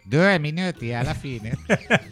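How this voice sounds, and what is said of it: Imitates another person's voice. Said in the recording (Italian): “Dillo con la voce di Pizzul. ... Oh, ti viene bene.”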